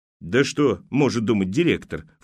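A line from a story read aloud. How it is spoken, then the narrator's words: Snort. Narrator (Russian): фыркнула первая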